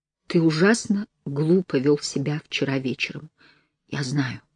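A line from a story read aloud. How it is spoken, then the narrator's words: Whisper. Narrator (Russian): прошептал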